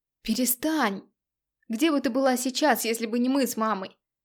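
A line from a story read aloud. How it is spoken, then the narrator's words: Shouting. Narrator (Russian): закричал Миша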